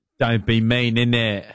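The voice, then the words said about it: Put-on English accent. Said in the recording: “Do your English accent.”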